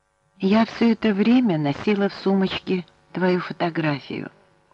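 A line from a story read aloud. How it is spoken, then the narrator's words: Sleepy whisper. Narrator (Russian): сонным голосом прошептала Клодия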